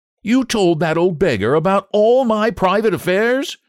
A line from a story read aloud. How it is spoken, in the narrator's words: cried Huey, looking very red and angry